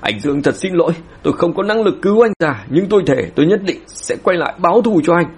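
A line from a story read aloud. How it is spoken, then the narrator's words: Hurried loud shout together. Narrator (Vietnamese): Mạc Thanh Tu Mạc Thanh Trúc vội vàng đồng loạt hét lớn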